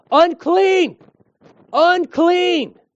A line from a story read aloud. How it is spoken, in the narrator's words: If they're in town near people, they had to shout